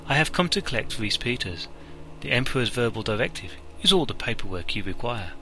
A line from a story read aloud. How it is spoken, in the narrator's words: Seville let the moment stretch before she responded coolly